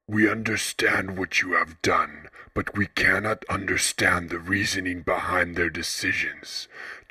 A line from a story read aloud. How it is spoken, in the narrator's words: Jalmail, the ambassador of the architect's concept of logic, spoke in his low, raspy voice